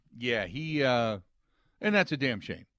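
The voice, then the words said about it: Sarcastic delivery. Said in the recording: “I say that sarcastically.”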